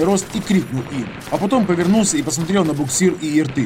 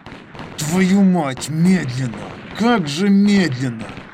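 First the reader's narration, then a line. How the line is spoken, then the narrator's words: Through gritted teeth. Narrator (Russian): Процедил сквозь зубы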